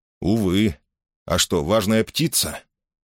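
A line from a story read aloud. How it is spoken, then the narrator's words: Sighing. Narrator (Russian): Гленда вздохнула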